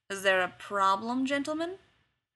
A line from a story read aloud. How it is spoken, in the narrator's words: another voice drawls